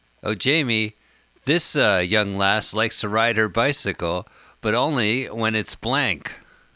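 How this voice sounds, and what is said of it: Game show host impression. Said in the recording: “That's my game show impression.”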